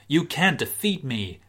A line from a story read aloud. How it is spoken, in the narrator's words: screamed Michael Cera